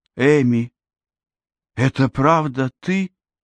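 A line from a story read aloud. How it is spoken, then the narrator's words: Tearful, strained. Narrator (Russian): выдавила она сквозь слезы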